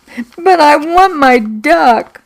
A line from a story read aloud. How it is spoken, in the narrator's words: sobbed